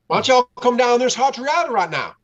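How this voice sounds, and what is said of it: Fast, poor put-on Southern accent. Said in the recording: “give me a Southern accent ... I talked way too fast for myself ... That was worse than his”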